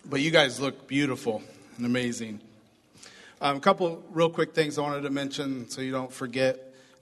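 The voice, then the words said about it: Slightly rough, hoarse voice. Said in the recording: “my voice is going to be a little rough this morning... Too much yelling at my son's football game... my voice is a little rough”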